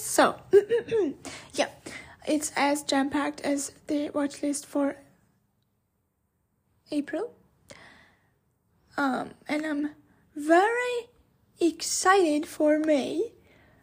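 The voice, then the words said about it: Hoarse, fading voice. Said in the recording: “I just realized I'm losing my voice”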